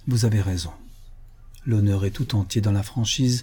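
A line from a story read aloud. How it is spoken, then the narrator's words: Sad. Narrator (French): tristement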